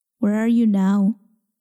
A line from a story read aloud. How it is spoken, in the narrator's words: asks